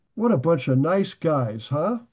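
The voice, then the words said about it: Sarcastic tone. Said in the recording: “I'm being sarcastic”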